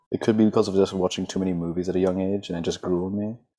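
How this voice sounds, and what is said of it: American accent. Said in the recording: “I was confused by your accent as well. Like, why is it American? ... I'm the only one in my family with an American accent.”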